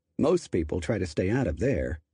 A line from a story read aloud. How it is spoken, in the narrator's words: observed dryly